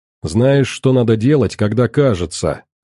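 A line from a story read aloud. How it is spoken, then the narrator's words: Snapping retort. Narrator (Russian): огрызнулся Леший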